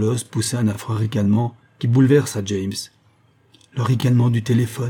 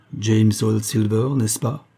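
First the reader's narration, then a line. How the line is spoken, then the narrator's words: Strange figure's muffled voice. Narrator (French): prononça le singulier personnage d'une voix sourde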